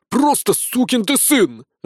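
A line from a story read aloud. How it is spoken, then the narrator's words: Furious roar. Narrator (Russian): взревел Капрал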